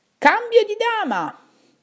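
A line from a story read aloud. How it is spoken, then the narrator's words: Shout from the darkness. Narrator (Italian): dal buio qualcuno gridò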